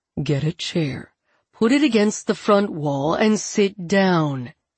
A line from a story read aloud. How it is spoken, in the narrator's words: Andrew says